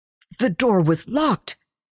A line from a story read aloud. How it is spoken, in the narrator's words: he sputtered